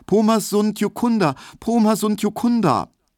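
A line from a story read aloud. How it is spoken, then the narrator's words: High, frightened, repeated calling. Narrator (German): Er rief nur immer wieder ganz hoch und ängstlich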